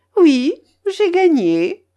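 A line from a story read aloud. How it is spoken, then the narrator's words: Laughing. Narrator (French): répondis-je en riant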